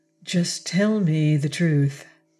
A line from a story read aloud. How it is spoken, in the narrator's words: she said quietly